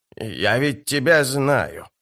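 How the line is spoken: Hiss. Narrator (Russian): прошипела она

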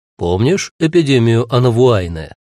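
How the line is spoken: Plain. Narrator (Russian): спросил он

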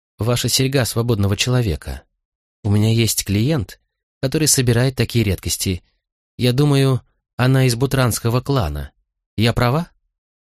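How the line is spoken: Hesitant fearful female question. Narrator (Russian): Она спросила это так неуверенно, словно ожидала, что я могу впасть в ярость

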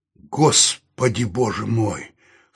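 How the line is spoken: Hoarse exclamation. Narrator (Russian): хрипло воскликнул Саул

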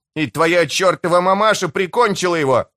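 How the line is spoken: Shouting. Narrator (Russian): выкрикнул Селедка

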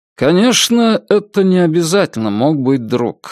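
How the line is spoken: Said sleepily. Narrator (Russian): сказал Мэсон, сонно

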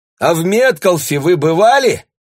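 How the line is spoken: Shouted through partition. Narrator (Russian): крикнула она через перегородку

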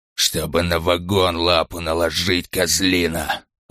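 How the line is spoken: Hissed through barely-open lips. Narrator (Russian): прошипел Ланкау, почти не открывая рта

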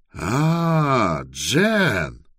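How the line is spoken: Joyful. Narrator (Russian): сказал он радостно

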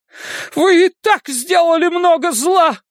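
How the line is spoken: Mother shouting. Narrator (Russian): кричала мать Эдди

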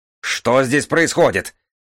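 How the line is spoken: Sweaty panicked yell. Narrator (Russian): заорал Леон, покрываясь испариной

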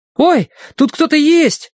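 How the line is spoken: Startled exclamation. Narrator (Russian): воскликнул Колин

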